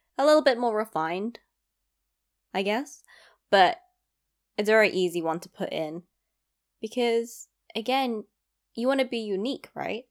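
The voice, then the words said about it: East London accent, slightly Cockney. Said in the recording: “my accent is very, I would say, very basic. It's a London accent ... I grew up in East London ... maybe Cockney, a little”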